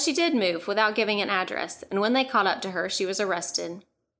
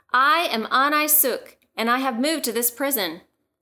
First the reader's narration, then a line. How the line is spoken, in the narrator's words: she called out to all of the prisoners